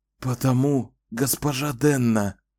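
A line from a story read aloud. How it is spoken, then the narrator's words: Hoarse rasp. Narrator (Russian): прохрипел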